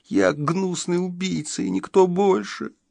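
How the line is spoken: Sobbing young lad. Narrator (Russian): всхлипывал паренек

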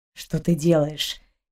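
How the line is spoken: Quiet grumble, close behind. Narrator (Russian): тихо проворчал ей в затылок капитан

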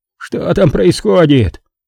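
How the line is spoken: Hoarse rasp. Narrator (Russian): Винсенти прохрипел

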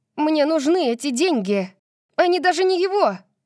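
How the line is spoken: Shouting. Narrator (Russian): крикнула

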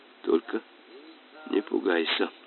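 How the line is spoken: Whisper. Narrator (Russian): шепнул капитан

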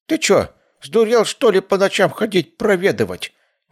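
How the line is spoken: Old woman, displeased grumble. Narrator (Russian): Недовольно проворчала бабка

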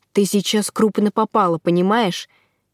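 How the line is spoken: Huffing growl. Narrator (Russian): пыхтел, в смысле, рычал оборотень

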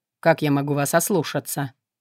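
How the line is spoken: Wry snort. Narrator (Russian): Я криво хмыкнула

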